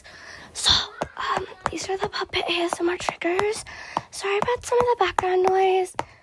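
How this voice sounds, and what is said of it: Whispering. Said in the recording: “I guess I should into my whisper voice.”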